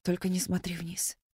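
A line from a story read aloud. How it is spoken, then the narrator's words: Whispering to herself. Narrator (Russian): шептала она себе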